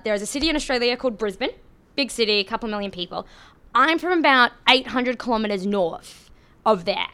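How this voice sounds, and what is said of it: Thick Australian accent. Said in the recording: “I do have a thick accent ... I'm going to sound very Australian ... as my accent suggests, I am Australian.”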